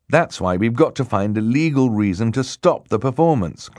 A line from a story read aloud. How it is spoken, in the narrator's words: Klaus said firmly